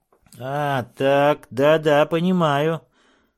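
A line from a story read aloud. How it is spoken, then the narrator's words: Plain. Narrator (Russian): сказал Бен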